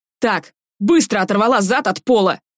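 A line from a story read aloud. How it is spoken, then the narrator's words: Yelling. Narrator (Russian): заорал Юра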